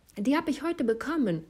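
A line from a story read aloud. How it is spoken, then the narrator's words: Called out grinning. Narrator (German): rief sie grinsend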